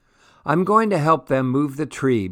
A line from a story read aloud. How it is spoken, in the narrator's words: Baba yells